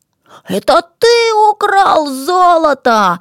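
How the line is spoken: Shout. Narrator (Russian): закричал хитрец

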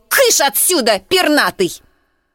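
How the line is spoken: Sharp scolding shout. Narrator (Russian): Кикилия прикрикнула на него

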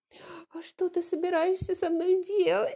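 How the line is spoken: Trembling question. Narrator (Russian): спросила Сюзон дрожащим голосом

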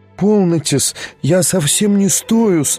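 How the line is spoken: Babbling. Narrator (Russian): лепетала она

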